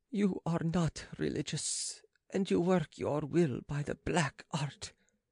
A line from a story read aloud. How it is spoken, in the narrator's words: replied the woman haughtily